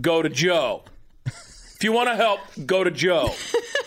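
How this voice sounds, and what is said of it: Convincing put-on New York accent. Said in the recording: “Your New York accent is on point.”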